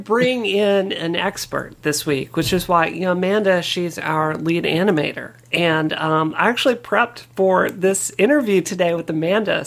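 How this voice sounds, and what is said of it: Hoarse voice. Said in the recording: “I'm a little hoarse this week. I get laryngitis sometimes”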